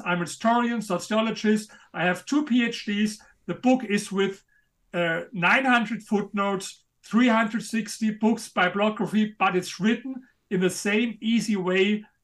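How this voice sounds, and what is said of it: Speaks English with a noticeable accent. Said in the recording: “in spite of my accent ... I love your accent. Your accent's badass.”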